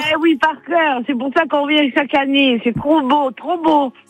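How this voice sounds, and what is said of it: Slight Marseille accent. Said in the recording (French): “ce petit accent ... De Marseille”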